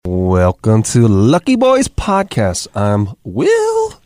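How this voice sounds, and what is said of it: High falsetto voice. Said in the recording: “I don't even know how I got so falsetto.”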